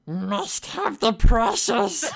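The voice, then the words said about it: Scary Gollum-like creature voice. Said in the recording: “Schmeagol from Hobbiton. That was great ... That was really good impression ... Very good ... That was awfully kind of scary”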